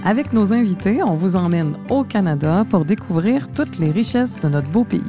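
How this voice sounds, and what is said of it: Québécois French accent. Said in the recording (French): “vous entendez mon accent, je suis de Montréal”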